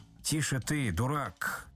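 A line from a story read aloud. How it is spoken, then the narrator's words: Menacing. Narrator (Russian): сказал Остап грозно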